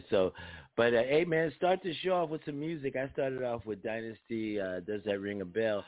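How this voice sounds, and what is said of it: Heavy, strained voice. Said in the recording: “My voice is heavy. My voice is heavy. I feel it.”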